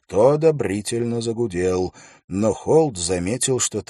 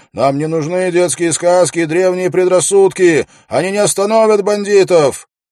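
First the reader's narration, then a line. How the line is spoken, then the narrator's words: Shouted. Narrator (Russian): чей-то голос крикнул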